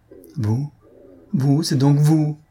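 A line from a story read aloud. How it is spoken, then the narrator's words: Stammered. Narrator (French): balbutia-t-il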